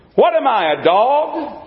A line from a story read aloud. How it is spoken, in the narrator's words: thundered mean old Goliath